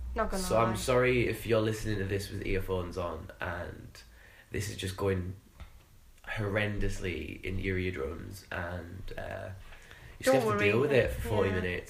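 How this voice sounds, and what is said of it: Hoarse, raspy sick voice. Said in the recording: “a very ill ... My voice, I sound like I've been smoking for like 50 years. And I sound like so a character from EastEnders.”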